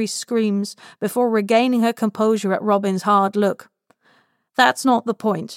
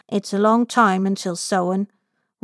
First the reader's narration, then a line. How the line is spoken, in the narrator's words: Robin murmurs